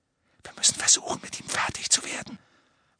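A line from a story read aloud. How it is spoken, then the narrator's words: Whisper. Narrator (German): flüsterte er Ron zu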